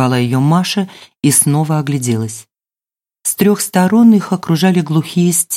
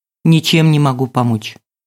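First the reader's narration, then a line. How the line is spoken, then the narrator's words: Sharp curt reply. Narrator (Russian): резко отозвалась Маша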